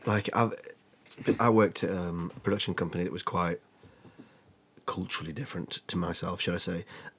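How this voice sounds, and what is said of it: Northern English accent. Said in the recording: “I love a northern accent ... my accent”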